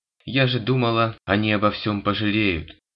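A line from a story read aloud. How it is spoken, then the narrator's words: Sniffling teenage girl complaining. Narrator (Russian): громко хлюпая носом, жаловалась девочка-подросток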